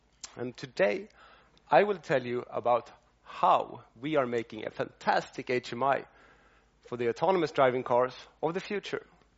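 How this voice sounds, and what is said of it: Swedish accent. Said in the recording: “I have a Swedish accent”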